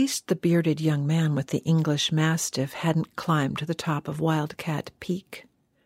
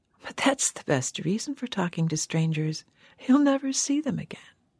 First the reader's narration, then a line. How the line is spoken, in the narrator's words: With her provocative little laugh, the woman had said